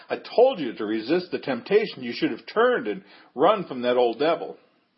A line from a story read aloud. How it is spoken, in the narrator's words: He yelled